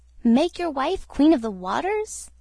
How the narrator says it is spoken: exclaimed the goldfish

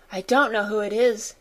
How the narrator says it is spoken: she said

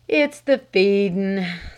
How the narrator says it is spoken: sighed the old butler

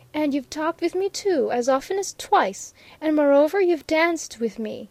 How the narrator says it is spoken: she repeated triumphantly

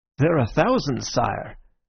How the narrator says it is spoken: I said, lying cheerfully

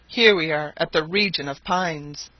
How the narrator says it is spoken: cried Barbicane

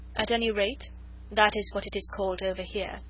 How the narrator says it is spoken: she said dryly

